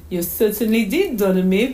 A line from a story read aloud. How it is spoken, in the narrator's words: Mommy answered, laughing again